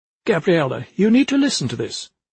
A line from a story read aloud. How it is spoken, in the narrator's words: Kraft said, in an unusually sharp tone